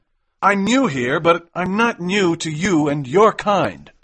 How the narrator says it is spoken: shouted McMurdo

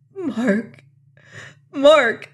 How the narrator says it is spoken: cried

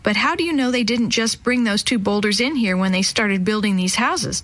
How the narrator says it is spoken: Jenny asked

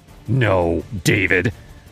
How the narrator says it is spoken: she snapped, her eyes blazing

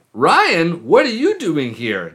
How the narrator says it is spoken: Daphne exclaimed

